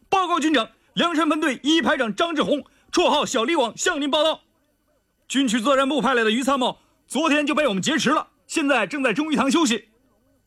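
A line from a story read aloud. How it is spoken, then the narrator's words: Loud voice. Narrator (Chinese): 于参谋大声道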